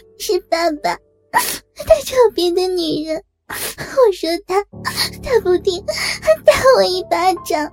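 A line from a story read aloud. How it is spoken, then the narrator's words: Crying. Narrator (Chinese): 小玲哭着说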